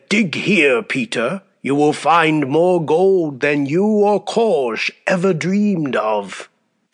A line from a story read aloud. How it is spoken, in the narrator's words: croaked the old woman in a dull voice